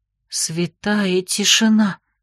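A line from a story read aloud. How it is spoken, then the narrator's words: Puzzled exhale. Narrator (Russian): озадаченно выдохнула Дора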